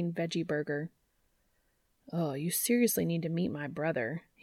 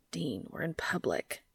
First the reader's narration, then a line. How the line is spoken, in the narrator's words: he hissed